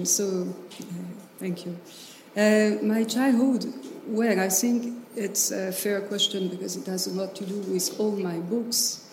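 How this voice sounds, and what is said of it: French accent in English. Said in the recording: “my English accent mistakes... Little French, I am.”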